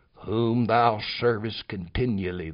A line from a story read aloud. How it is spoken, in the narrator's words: the king said